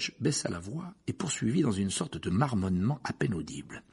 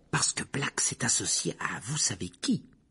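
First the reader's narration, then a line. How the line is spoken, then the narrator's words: Whispering. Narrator (French): chuchota Madame Rose Merton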